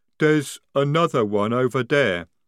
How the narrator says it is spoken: rumbled Jade

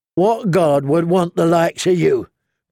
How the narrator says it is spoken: growled Lem

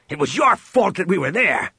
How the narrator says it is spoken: Han growled at him

